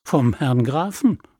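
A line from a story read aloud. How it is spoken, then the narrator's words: Plain. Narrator (German): sagte K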